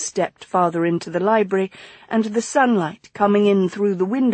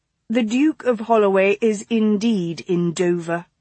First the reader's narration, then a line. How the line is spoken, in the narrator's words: she said evenly